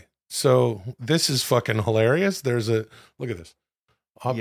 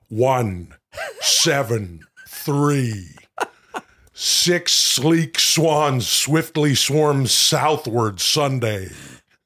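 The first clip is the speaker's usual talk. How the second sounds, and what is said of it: Imitates another person's voice. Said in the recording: “your best Jesse Ventura impression.”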